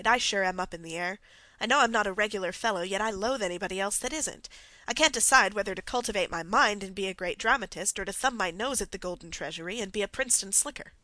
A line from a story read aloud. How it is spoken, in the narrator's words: he sighed